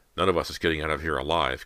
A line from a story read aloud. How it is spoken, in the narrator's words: Cody muttered, her green eyes clouded with fear